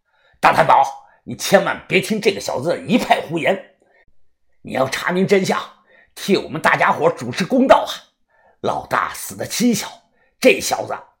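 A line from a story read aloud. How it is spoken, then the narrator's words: Angry voice. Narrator (Chinese): 黄毛 怒声的说道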